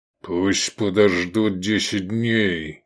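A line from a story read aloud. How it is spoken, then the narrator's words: Through gritted teeth. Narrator (Russian): процедил Квиет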